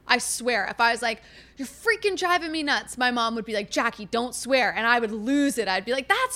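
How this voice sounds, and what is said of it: Yelling, loud passionate speech. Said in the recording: “I'm yelling because I'm so passionate about this.”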